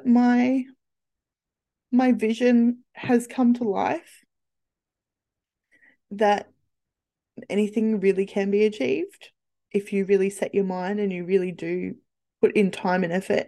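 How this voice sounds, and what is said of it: Emotional, halting voice. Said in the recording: “I'm getting emotional. ... I'm getting really emotional.”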